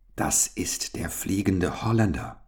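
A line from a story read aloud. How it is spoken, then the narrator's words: Ghostly whisper. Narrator (German): flüsterte endlich Gustav, fast mit geisterhafter Stimme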